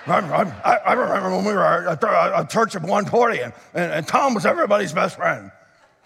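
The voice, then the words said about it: Put-on churchy Christian voice. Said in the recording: “let me put it in my Christian voice.”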